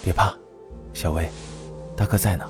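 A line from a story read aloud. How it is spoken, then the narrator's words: Soft, soothing. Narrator (Chinese): 轻声安抚道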